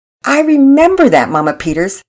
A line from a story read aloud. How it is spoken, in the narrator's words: Pearson laughed